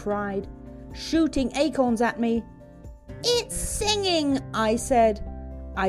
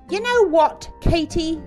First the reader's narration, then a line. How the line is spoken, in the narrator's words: Jerry yelled